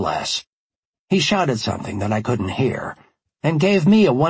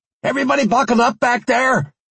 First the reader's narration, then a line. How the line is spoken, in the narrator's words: I shouted